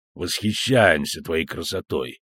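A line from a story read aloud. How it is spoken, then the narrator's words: Muffled mutter into goblet. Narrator (Russian): пробурчал Хенсельд из глубин кубка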